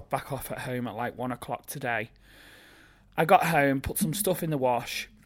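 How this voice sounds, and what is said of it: Tired, low-energy voice. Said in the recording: “I am cream crackered ... you can probably hear in my voice and my energy levels today”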